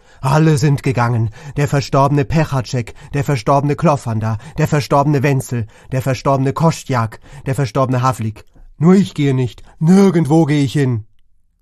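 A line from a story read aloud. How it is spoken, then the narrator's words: Shouting. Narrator (German): schrie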